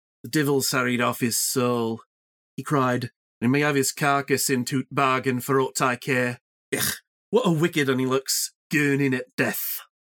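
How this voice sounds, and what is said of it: Yorkshire accent. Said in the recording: “Yorkshire ... how it would actually sound ... pretty good. Impressive.”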